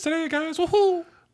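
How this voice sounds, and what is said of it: High cartoonish Mickey Mouse-style voice. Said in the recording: “Doing a different voice ... You doing Mickey Mouse? ... Sort of, yeah. I didn't do it that great”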